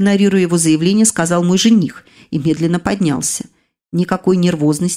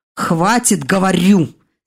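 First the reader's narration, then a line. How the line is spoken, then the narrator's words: Angry, worried growl. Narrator (Russian): сердито рыкнул смерть, начавший серьезно беспокоиться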